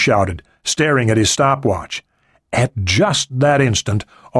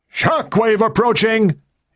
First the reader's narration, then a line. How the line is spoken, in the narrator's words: he shouted